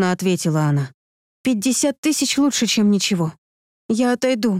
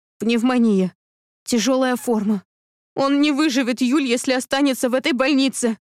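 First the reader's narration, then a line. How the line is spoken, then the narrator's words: Sobbing. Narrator (Russian): всхлипнула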